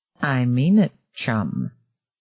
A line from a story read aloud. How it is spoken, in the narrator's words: Sister Anne said softly